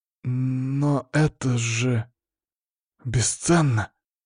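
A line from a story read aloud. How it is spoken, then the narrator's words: Stammering. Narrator (Russian): запинаясь, произнес Лызлов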